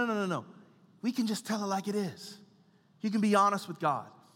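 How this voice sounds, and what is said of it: Usual voice. Nothing is said of it.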